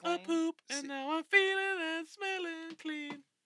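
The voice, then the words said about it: Baby voice. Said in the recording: “That's what a baby says. That's my baby voice.”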